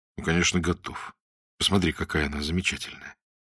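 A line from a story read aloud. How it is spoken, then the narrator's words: Calm inner voice. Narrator (Russian): какой-то неведомый внутренний голос спокойно говорил внутри его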